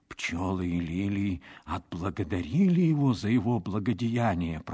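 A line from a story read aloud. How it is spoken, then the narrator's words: Whisper. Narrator (Russian): прошептал он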